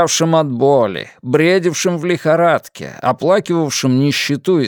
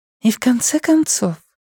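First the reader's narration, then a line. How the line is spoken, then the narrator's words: Gentle coaxing. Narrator (Russian): мягко уговаривала Фанни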